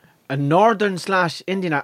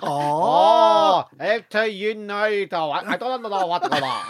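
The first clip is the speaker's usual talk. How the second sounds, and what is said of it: Put-on Chinese-Belfast accent. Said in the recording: “I could try a Chinese fella who came over from China and is now living in Belfast.”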